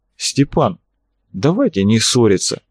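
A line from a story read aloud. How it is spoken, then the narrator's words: Calm speech. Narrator (Russian): Арцулов говорил спокойно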